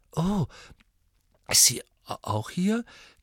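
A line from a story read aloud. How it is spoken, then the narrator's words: Croaking. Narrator (German): krächzte Harry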